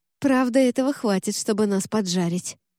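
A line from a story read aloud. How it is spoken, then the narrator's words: Sighing. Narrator (Russian): вздохнул Ржаник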